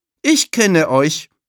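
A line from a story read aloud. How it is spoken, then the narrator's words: Called out. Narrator (German): ruft Tulile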